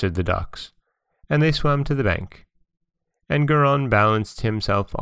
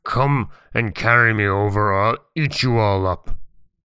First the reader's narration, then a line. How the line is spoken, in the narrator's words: he roared out at the ducks in a terrible voice